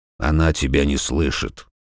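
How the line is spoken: Hollow, muffled voice. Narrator (Russian): глухо сказал Арнольд

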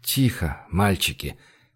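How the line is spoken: Muttering through teeth. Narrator (Russian): бормотал он сквозь зубы

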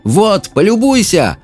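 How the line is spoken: Shouted. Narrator (Russian): крикнул Саймон дракону

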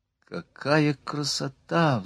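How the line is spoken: Sigh. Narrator (Russian): вздохнула Марианна

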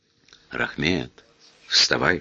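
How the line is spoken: Whisper. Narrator (Russian): шепнул Грин

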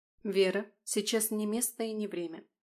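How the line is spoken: Dry, lifeless interjection. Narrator (Russian): Тактично сухим и безжизненным тоном вмешалась Алиса

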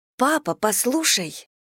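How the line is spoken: Excited interruption. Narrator (Russian): взволнованно перебила его Дейзи

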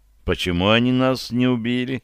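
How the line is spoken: Quiet question. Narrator (Russian): тихо спросила Лидия

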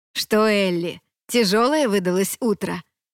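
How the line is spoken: Chuckle. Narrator (Russian): хохотнул Джим

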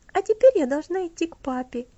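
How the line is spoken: Cheerful. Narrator (Russian): весело сказала она

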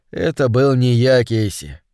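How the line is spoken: Soft. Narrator (Russian): мягко сказал Холман

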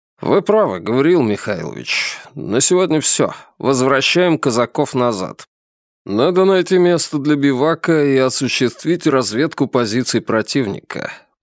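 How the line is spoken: Weary. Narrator (Russian): произнес устало Ренинкампф

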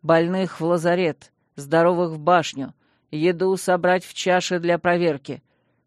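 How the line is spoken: Dry metallic command. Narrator (Russian): металлическим измененным голосом сухо командовал он

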